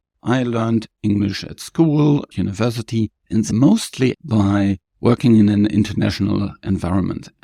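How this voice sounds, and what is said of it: Non-native English accent. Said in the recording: “as you probably can get from my accent, I'm also a non-native speaker”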